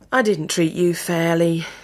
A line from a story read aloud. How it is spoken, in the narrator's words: Edmund sighed